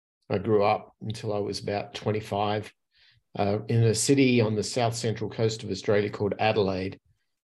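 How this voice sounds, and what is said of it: Australian accent. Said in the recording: “if my accent doesn't give it away, I'm originally from Australia”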